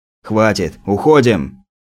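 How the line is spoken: Sharp shout. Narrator (Russian): прикрикнул опер

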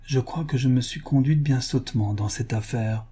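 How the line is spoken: Low voice. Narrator (French): dit à voix basse Madame Wilkinson

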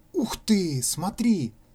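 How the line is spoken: Exclamation. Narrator (Russian): воскликнул Ванька

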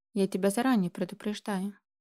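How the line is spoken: Quiet. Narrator (Russian): тихо сказал Михаил Юрьевич

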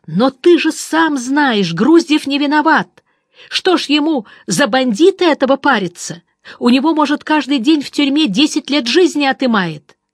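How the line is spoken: Indignant near-tearful yell. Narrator (Russian): Чуть не плача от возмущения, я заорал

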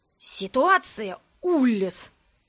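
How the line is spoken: Hiss. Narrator (Russian): прошипел

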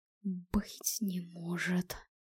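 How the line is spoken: Whisper. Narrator (Russian): прошептал Стефан

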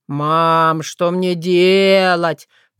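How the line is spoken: Moaning. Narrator (Russian): простонал Дима

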